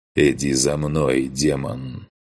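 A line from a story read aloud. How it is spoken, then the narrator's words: Slightly tense deep voice. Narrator (Russian): Немного напряженным голосом пробасил Грон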